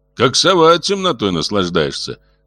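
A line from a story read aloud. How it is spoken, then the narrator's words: Feigned cheerfulness. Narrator (Russian): притворно весело сказал Дмитрий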